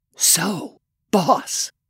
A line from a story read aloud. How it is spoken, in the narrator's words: he whispered